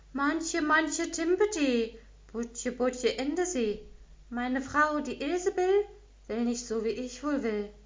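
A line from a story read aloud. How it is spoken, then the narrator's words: Fisherman calling out. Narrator (German): Der Fischer rief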